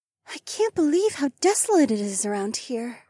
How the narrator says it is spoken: Rachel sighed

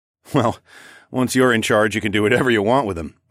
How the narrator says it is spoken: I chuckled

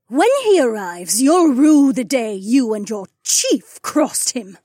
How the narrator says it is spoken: she sneered

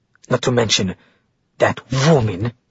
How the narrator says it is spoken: she spat the word

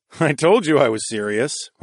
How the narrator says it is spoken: I chuckled

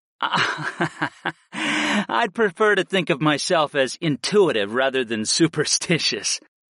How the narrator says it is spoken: I laughed lightly

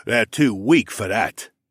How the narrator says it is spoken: the first one laughed

